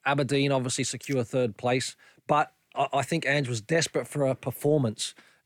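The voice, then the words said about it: Australian accent. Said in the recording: “You've got the Australian accent because you're Australian”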